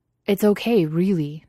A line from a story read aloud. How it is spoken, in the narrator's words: Justin exclaimed, even though it obviously wasn't okay